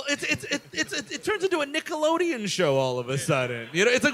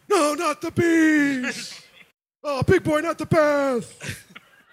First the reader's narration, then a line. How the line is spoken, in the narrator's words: he's screaming